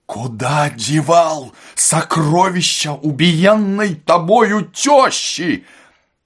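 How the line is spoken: Hoarse shout. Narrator (Russian): Он закричал охрипшим голосом

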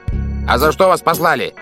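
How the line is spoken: Shout. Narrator (Russian): крикнул Старпом

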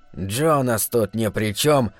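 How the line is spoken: Grumbled. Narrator (Russian): буркнул Джоб

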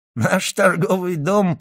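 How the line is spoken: Added while laughing. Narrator (Russian): прибавил англичанин, смеясь

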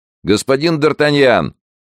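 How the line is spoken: Shouting out window. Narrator (Russian): крикнул Монк в окно

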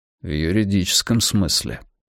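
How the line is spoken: Quiet. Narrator (Russian): тихо сказал Йона

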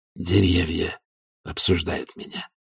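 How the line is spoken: Whisper. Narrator (Russian): прошептал лорд Фельмет

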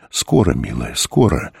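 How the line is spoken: Sad old man's voice. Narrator (Russian): голос деда звучал почему-то грустно

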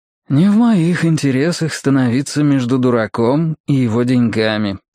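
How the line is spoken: Deliberately soft. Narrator (Russian): нарочито мягко произнес Мэтью

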